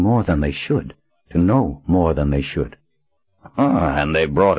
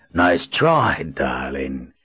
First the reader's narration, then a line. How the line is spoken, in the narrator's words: Marlin said in a rough voice